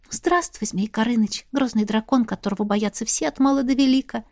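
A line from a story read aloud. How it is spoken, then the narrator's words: Soft smiling voice. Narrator (Russian): Мягко улыбнулась Настя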